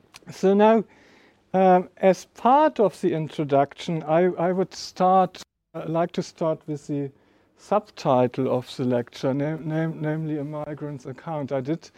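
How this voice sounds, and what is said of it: German accent. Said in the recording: “my terrible accent ... I'm sort of made in Germany”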